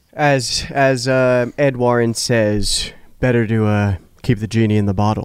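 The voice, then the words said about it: Imitates another person's voice. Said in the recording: “That was an excellent Patrick Wilson impersonation.”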